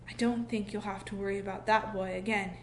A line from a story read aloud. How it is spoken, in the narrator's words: he said softly